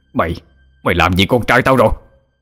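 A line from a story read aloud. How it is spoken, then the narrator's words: Enraged roar. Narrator (Vietnamese): ông nổi trận lôi đình, gầm lên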